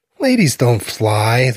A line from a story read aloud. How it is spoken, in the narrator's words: the kid says in an irritated voice